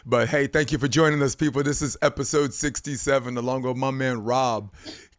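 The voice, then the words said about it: Slightly hoarse voice. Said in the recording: “my voice is going to be a little bit hoarse.”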